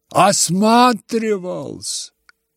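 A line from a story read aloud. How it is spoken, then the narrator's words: Tender sigh. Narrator (Russian): еще раз умилительно вздохнул Лебедев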